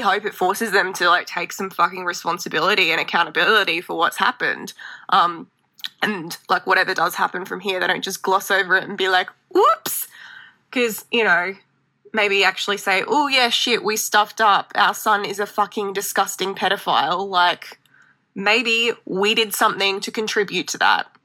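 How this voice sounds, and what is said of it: Distinctive regional accent. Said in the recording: “We are obsessed with your accent. ... I love accents. ... That's your, like, accent, your vibe.”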